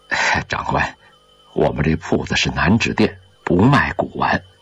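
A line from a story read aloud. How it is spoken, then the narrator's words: Humble, meek. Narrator (Chinese): 低声下气地说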